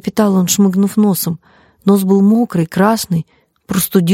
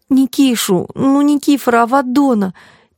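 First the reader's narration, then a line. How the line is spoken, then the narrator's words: Sobbing. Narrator (Russian): Петя всхлипнул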